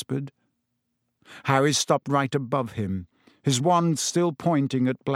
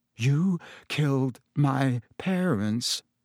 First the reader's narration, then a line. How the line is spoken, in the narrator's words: said Harry, his voice shaking slightly